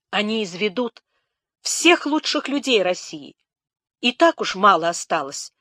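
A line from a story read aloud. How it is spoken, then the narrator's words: Exclamation. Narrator (Russian): воскликнула Нелидова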